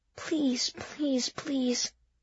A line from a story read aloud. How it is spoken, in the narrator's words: Miss Russell whispered